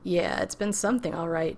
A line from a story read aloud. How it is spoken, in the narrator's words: John laughed